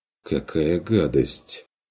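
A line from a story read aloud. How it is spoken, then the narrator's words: Mutter. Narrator (Russian): пробормотал Курт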